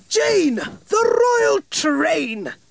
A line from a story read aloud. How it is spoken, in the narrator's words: cried